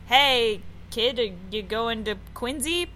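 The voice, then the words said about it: Attempted Boston accent. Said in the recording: “I, I can't do a Boston accent at all.”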